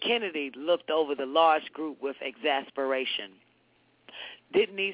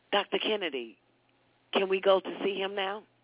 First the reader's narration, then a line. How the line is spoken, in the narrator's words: One of the daughters asked timidly